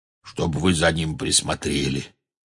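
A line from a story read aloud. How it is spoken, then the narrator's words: Hoarse. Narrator (Russian): хрипло сказал Хагрид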